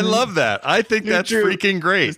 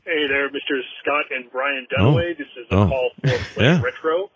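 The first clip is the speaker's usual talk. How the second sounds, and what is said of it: Imitates another person's voice. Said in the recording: “I'll do an impression. Let me turn it down a little bit. Okay, so here's my impression.”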